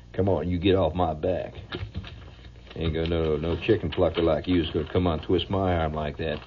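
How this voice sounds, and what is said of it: Put-on Texan-style accent. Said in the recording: “that damn accent that Tex has got is catching”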